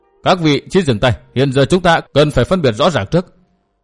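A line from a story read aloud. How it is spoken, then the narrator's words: Raised voice calling. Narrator (Vietnamese): Lý Phùng Kiệt cao giọng gọi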